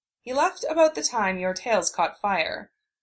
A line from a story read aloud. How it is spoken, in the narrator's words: Sakura said dryly